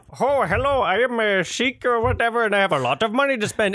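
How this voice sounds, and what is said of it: Put-on Indian accent. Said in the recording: “an Indian accent ... It wasn't even as good as what I just did ... yours was spectacular”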